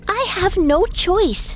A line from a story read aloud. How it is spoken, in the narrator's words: cried